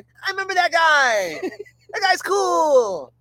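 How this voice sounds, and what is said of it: Imitates another person's voice. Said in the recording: “That's actually a pretty good accent.”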